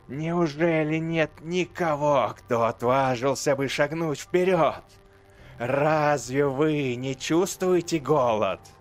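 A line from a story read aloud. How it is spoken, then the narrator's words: Rising into hoarse shout. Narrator (Russian): Ее голос перерос в хриплый крик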